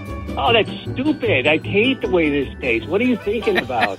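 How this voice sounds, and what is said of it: Imitates another person's voice. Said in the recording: “are you imitating Mary Vandeveld today? ... Do your best Mary impersonation.”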